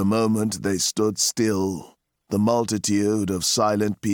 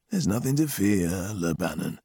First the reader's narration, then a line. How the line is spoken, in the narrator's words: he said, gently, mockingly